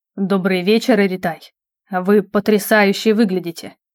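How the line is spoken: Slightly husky voice. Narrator (Russian): с легкой хрипотцой произнес он

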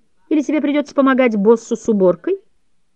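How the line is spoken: Overly familiar laughter. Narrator (Russian): засмеялся так запанибратски, как только мог

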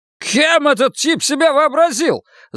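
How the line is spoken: Yelling. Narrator (Russian): заорал Кирк

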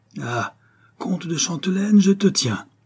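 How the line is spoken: Cried out. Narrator (French): s'écria-t-il

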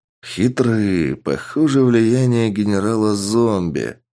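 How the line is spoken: Mutter. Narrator (Russian): пробормотал Сергей

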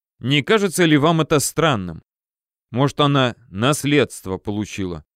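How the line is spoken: Wry snort. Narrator (Russian): хмыкнул Федя

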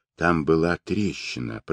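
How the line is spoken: Whispered. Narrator (Russian): прошептал Джамуха

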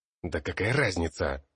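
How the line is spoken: Irritated growl. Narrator (Russian): Раздраженно рыкнул Ботлер

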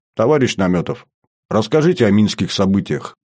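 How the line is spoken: Plain. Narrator (Russian): сказал нарком

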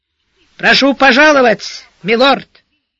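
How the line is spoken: Very loud, near shout. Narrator (Russian): Верный Макрит на сей раз произнес это что-то чересчур уж громко, почти крикнул

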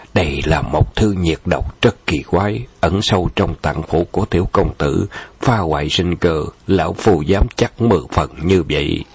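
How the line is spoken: Dreamy muttering. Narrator (Vietnamese): nhắm mắt lẩm bẩm như đang nói trong mê

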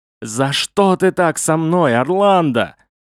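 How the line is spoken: Chief shouting. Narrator (Russian): вождь прокричал

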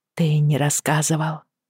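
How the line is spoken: Hesitant. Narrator (Russian): Неуверенно заговорила она

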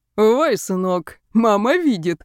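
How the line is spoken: Chuckling. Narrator (Russian): хохотнул Алишер

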